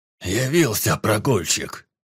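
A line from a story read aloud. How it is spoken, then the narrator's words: Grumbling. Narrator (Russian): пробурчал Гриан Борд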